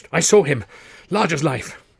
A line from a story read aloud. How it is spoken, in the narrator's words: he gasped